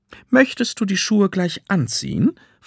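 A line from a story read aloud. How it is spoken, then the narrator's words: Plain. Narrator (German): fragt die Verkäuferin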